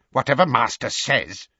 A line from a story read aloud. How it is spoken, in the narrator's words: he muttered furiously